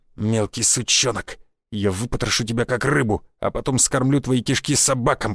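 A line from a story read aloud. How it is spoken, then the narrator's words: Venomous hiss. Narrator (Russian): прошипел Мышкин, давая волю излиться накопившемуся яду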